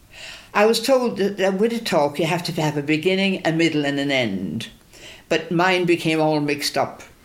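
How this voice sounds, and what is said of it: Irish accent. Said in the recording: “my Irish accent helps ... I love the Irish accent”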